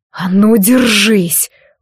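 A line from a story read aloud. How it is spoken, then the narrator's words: Growling. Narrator (Russian): прорычал он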